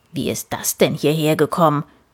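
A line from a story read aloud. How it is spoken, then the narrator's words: Grumbling. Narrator (German): brummte Papa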